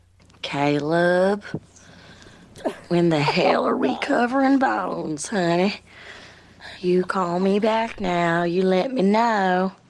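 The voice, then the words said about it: Put-on Southern belle accent. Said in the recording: “Southern Belle ... I really do sound Southern.”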